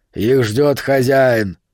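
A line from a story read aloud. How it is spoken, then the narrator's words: Barking. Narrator (Russian): кобра тут же рявкнул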